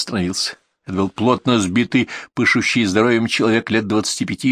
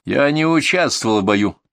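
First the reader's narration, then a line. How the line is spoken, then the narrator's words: Sharp Englishman. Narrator (Russian): резко сказал англичанин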